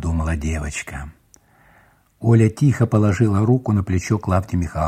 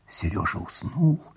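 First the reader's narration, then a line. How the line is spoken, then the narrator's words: Whisper. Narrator (Russian): шепотом сказала она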